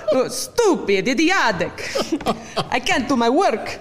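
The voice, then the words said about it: Cliché Russian spy accent, Dracula-like. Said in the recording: “very cliche Russian spy ... Give me that accent again ... that's turning a little Dracula”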